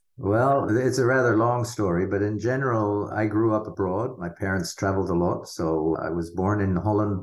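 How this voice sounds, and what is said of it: Hard-to-place foreign accent. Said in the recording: “any of our listeners who are being thrown by the accent like me, you've got the Dutch surname”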